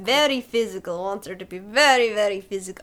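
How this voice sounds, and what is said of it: Put-on Russian accent. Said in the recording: “I don't know why I'm doing accents today ... As if you were from Russia”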